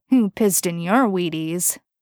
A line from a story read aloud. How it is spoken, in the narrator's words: Dean's lazy, mocking drawl answered him